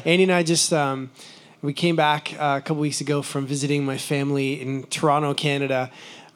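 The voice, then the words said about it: Hoarse, froggy voice. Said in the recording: “As you can hear, my voice is a little froggy”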